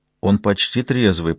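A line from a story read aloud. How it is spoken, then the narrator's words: Whisper. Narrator (Russian): прошептала Мэддокс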